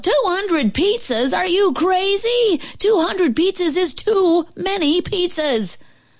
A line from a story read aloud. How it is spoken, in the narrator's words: The lady at the restaurant yelled